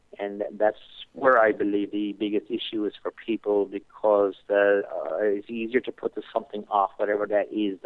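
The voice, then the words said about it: Irish accent. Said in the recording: “we can hear the accent. You're from Ireland, so you're from over across the pond”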